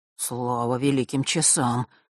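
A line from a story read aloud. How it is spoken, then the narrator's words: Relieved exhale, boy. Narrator (Russian): облегченно выдохнул мальчик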